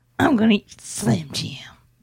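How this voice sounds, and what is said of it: Macho Man Randy Savage impression. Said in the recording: “Give us your best Macho Man impression.”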